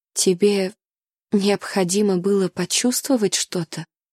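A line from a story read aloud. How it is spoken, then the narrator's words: Weak, pitiful voice. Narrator (Russian): переспросила я слабым, жалким голосом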